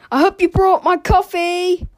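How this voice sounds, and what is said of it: Comically loud yelling. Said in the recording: “yelled the man in a comically loud voice.”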